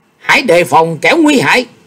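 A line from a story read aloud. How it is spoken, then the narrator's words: Urgent scream. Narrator (Vietnamese): Nhị Lan Hiển Thánh thét lên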